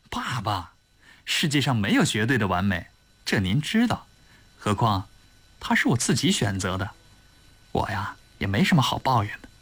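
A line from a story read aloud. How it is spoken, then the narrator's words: Smiling. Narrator (Chinese): 田宇笑笑说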